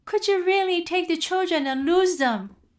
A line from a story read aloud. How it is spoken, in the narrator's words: cried out his wife